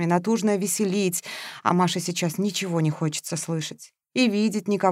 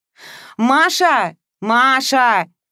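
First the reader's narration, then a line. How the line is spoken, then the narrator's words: Loud shouting. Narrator (Russian): кричал Игорь на весь двор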